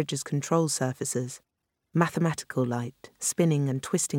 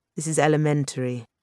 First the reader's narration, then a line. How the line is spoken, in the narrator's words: Marina said, a little coldly